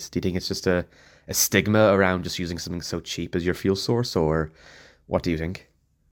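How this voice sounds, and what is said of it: South Dublin Irish accent. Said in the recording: “I reckon ... is from the south side of Dublin... Based on that accent.”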